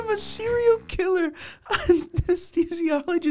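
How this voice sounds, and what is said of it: Usual voice. Nothing is said of it.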